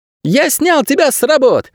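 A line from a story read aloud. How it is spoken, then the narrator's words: Joyful child announcing. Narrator (Russian): радостно сообщил мальчик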